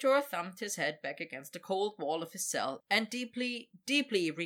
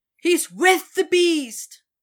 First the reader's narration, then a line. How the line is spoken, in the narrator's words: someone cried in horror